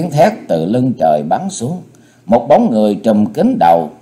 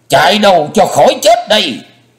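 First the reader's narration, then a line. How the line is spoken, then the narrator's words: Bloodcurdling scream. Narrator (Vietnamese): Lã Chân Thiết mà thét như rợn hồn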